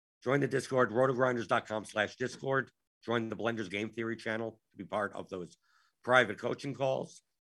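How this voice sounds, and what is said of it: Worn-out, tired voice. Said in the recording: “my voice is going. My voice is done. My voice is done for the day.”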